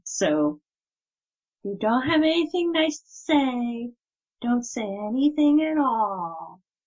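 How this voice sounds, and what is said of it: Put-on accent, well done. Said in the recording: “That accent was on point. That's good.”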